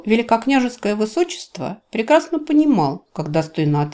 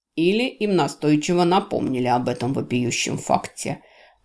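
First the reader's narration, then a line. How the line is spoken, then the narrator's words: Muttering under breath. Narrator (Russian): буркнул себе под нос Джевидж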